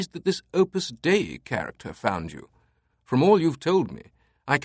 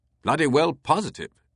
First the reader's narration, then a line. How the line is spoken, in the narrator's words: Teabing exclaimed